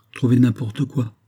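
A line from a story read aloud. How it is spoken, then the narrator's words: Captain murmuring. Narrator (French): murmura le capitaine Arundel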